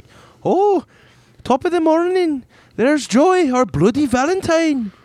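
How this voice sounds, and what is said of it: Poor put-on Irish accent. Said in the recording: “I can't do an Irish accent,”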